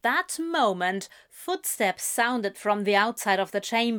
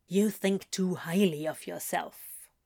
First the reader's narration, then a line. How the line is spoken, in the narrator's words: Crawley muttered, but her lips were quirking in a smile